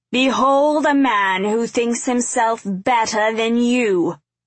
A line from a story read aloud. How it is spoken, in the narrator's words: he bellowed